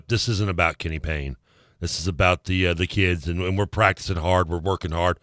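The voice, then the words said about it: Poor imitation of another person's voice. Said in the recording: “That was a terrible impression. ... He would never say that. ... That was bad.”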